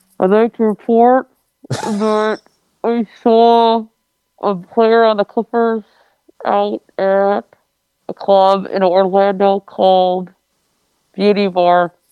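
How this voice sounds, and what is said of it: Muffled, disguised voice. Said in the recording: “disguise your voice ... I wouldn't do accent. I would just put something over my face ... I put like a towel over my mouth ... that was still pretty much”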